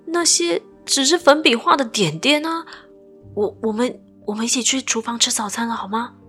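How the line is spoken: Pleading. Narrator (Chinese): 我哀求道

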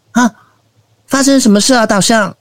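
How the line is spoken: Loud cry. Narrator (Chinese): 小老鼠也跟着老象大叫了一声

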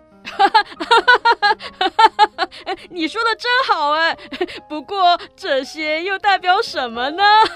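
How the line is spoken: Mischievous loud laughter. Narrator (Chinese): 哈克恶作剧的大笑

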